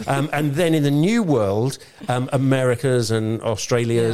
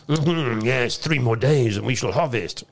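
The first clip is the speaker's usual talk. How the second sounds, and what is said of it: Put-on French accent. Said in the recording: “That was my French accent”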